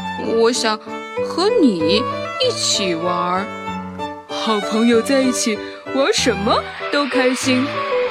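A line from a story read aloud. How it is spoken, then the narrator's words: Happy chuckling. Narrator (Chinese): 小象……突然嘿嘿的笑了一下，然后开心的和小猪说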